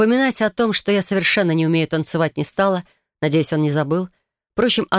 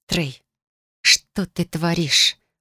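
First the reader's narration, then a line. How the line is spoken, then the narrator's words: Hissed. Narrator (Russian): прошипела, надеясь, что улыбка не сошла с лица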